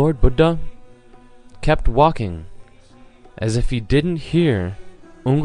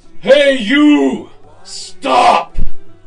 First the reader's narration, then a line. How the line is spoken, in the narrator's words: Ungli Mon yelled out in a ferocious, awful voice